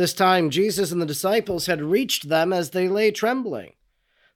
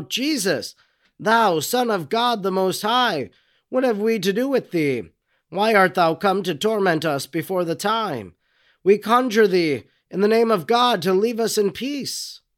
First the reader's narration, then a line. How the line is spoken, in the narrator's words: cried out